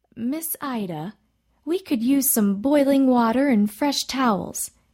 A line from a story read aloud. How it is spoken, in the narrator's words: Miss Alice said